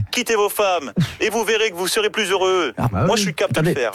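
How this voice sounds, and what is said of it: Imitates another person's voice. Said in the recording (French): “c'est pas Macron ... Toujours pas les imitations”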